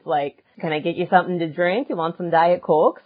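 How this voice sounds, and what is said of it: Upper Midwest American accent. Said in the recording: “the upper Midwest accent, the whole nine yards”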